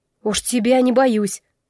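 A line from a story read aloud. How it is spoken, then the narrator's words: Indignant mutter. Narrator (Russian): буркнула, негодуя от того, что он вообще посмел такое подумать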